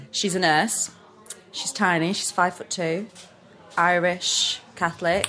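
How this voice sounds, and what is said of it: Neutral northern English accent. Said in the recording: “I feel like I'm speaking really northern ... my accent is all over the place. Like, it's quite neutral northern”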